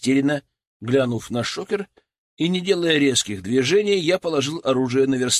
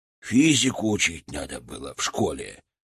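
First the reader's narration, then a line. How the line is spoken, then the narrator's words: Grumbled. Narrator (Russian): буркнул техник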